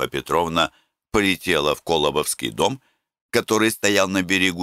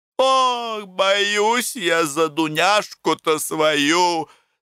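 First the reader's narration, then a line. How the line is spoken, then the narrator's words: Moaning. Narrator (Russian): стонала Матрена Ильинична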